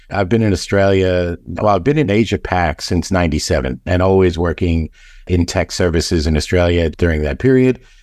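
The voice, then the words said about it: New York American accent. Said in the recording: “I'm hearing a distinct U.S. accent... I've been out of New York for a long time, but still have the accent”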